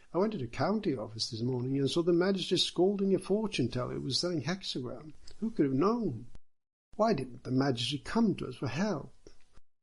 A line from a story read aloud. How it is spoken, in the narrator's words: they all cried